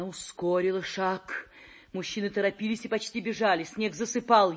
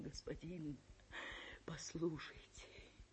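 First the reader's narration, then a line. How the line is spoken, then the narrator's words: Timid whisper. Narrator (Russian): Она еле осмеливалась шептать вслед прохожим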